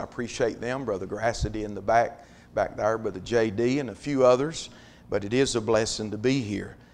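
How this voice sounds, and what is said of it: Raspy, hoarse voice. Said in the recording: “I'm a little raspy with a voice”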